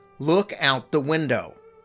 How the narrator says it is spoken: She finally raised her voice over mine and said

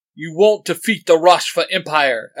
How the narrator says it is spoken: Asmodeus shouts

